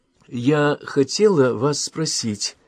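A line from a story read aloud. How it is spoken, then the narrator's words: Hesitant. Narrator (Russian): заговорила Соня неуверенно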